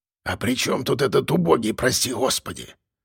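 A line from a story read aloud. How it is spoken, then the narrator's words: Whisper in ear. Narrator (Russian): прошептал мне на ухо шеф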